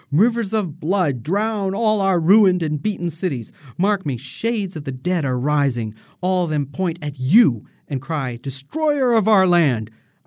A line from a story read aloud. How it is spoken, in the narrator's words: Aida screams out